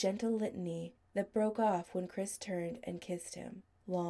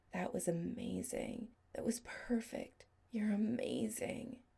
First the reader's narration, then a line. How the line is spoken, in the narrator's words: whispered low